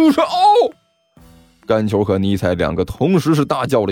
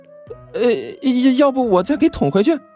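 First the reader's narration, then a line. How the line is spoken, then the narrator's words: Awkward forced laugh. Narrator (Chinese): 刘阿八干笑着说道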